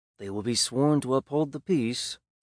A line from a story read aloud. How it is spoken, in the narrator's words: Sam muttered